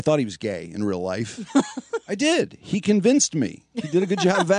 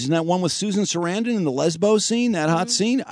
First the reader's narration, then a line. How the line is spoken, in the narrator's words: I yell out